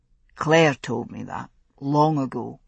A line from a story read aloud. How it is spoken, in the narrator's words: he said softly